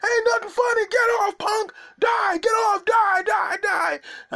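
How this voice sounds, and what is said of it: Yelling heckler voice. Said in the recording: “You're yelling louder.”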